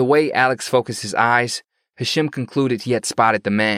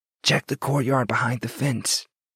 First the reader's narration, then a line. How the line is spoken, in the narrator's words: Hashim continued in a barely audible voice